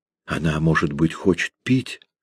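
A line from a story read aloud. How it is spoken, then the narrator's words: Whisper. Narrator (Russian): прошептала Аннелиза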